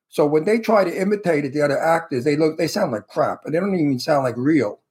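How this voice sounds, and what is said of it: Brooklyn accent. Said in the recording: “I could talk like I come from Brooklyn because I really do come from Brooklyn... my accent is a real accent. Right now, this is how they talk in Brooklyn... my Brooklyn accent”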